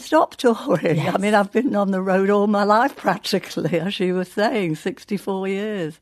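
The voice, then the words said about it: Lancashire accent. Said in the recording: “a Lancashire accent”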